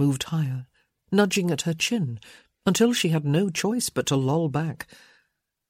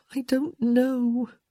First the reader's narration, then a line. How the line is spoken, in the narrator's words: moaned